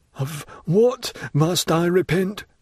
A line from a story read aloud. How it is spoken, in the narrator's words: stammered Danglars